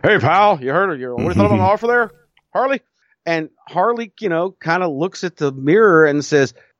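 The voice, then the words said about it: Imitates another person's voice. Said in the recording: “my best Vince impression. Sorry. Let me do a little bit better.”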